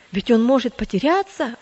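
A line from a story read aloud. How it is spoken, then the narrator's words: Exclamation. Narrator (Russian): воскликнул третий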